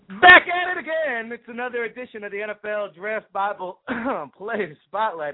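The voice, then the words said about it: Hoarse, strained, fading voice. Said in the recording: “Excuse me as I lose my voice. ... If you're wondering why I'm losing my voice,”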